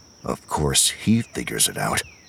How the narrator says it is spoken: Sigara muttered

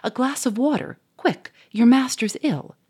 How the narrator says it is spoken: shouted the Duke

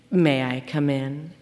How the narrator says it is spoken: asked Mr

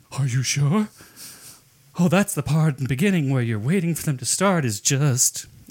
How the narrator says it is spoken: he literally gasped, saying

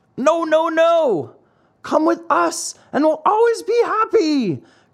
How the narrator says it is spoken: cried four other voices from the wagon

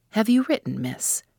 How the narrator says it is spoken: Grouse found a moment to say to me quietly

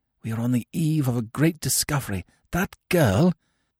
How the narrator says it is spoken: I whispered

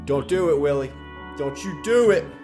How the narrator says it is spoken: A voice behind me screamed

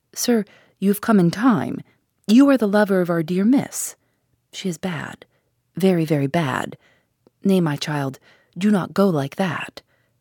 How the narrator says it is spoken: he said to him gravely

